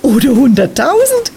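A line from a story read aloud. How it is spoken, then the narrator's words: Giggle. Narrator (German): kicherte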